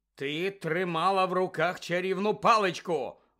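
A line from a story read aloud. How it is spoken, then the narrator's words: Barking. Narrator (Ukrainian): гаркнув містер Дігорі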